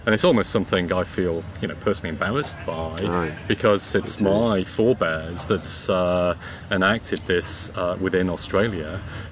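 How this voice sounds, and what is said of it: British accent. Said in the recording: “I'm originally from the UK. You can probably tell by my accent that I haven't been here that long”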